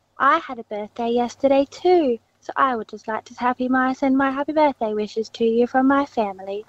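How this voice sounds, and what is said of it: Impression of the Queen of England. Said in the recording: “Is that the impression ... Just do the impression ... are you the Queen of England?”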